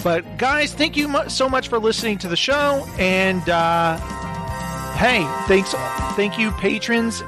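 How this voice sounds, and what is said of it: Hoarse, fading voice. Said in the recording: “my voice is going”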